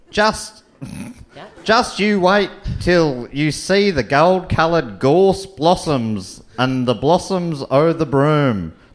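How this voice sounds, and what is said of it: Weird put-on Australian accent. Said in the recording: “I think I'm doing a weird Australian accent. ... You've really taken this outback”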